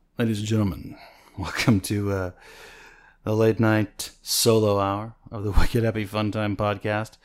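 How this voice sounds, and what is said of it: Sexy late-night DJ voice. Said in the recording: “I'm going to shift into my sexy DJ voice.”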